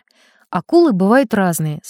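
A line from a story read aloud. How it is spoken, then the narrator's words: Calm robotic answer. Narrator (Russian): спокойно отвечает электроник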